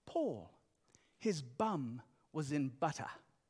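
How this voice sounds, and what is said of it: Imitated British accent. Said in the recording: “As my mom would say in her British accent”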